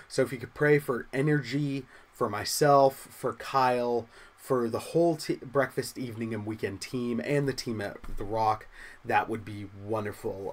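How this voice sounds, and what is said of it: Congested, slightly off voice from cold. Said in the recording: “my voice is a little thrown off. You've heard me sniffle a couple of times. I'm fighting a cold.”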